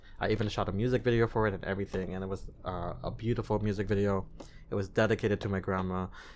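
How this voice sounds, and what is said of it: Slight foreign accent in English. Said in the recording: “you can hear like a hint of something in the way I speak English ... I'm very proud of that accent I have. It's unique.”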